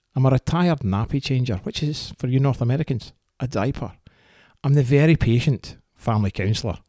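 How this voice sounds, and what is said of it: Scottish accent. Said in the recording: “this accent is not Canadian. It is 100% authentic, unapologetically Scottish.”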